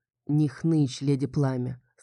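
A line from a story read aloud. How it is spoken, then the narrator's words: Quiet. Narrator (Russian): сказал он тихо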